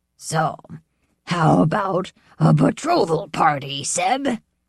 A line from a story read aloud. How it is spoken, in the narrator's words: He would bellow and laugh